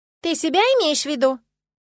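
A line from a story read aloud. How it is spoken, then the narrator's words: Loud objection. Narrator (Russian): тут же громко возразила Лия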